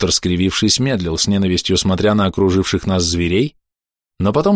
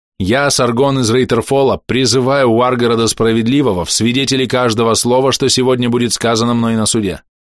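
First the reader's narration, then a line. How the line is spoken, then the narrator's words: Loud, clear declaration. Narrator (Russian): Я громко и отчетливо произнес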